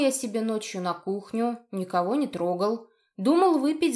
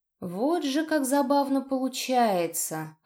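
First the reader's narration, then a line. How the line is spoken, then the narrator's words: Deceptively gentle tone. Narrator (Russian): обманчиво ласковым тоном произнес мужчина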